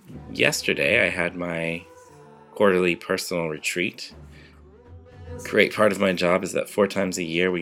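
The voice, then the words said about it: Slightly raspy voice. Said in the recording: “you might be able to tell from my voice that I'm a little bit raspy. ... my annual beginnings of chest infection”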